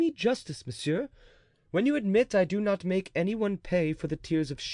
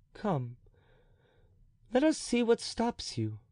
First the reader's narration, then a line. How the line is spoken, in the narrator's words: said the king kindly